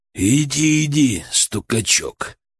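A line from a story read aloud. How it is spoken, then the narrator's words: Grumbling. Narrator (Russian): проворчал он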